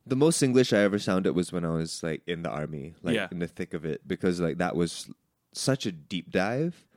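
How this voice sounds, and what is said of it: Neutral RP English accent. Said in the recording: “I speak in a very RP accent, something that is very neutral.”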